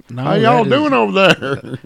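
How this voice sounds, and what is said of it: Put-on Southern Alabama twang. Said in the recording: “No, that's a an Alabama. ... That twang is different.”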